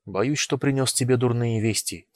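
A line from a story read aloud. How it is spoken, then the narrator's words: Quiet. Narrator (Russian): тихо сказал я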